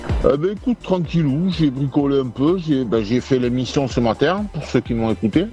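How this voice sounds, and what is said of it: Slight Basque-region French accent. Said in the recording (French): “t'as as, aussi un, petit accent, tu viens d'où du Pays Basque”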